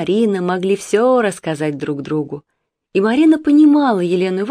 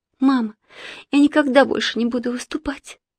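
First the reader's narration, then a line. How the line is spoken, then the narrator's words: Sudden fervent whisper. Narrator (Russian): вдруг неожиданно горячо прошептала Марина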